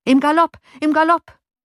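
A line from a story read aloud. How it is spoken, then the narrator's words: Calling out. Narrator (German): rief Johann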